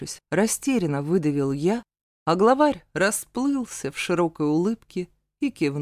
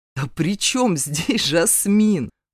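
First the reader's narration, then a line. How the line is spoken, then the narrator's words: Laughing openly. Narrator (Russian): Уже не сдерживаясь, рассмеялся Асад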